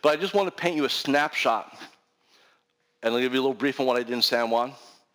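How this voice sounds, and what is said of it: Strained, struggling voice. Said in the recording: “My voice is kind of, my, I'm really starting to struggle here”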